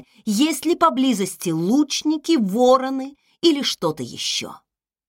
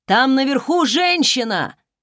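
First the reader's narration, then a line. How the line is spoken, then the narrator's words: Shouted in Old Elvish. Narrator (Russian): крикнул один из них на староэльфийском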